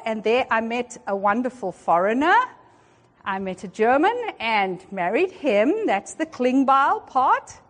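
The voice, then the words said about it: South African accent. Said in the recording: “the accent. ... I'm South African by birth, and that's where I grew up”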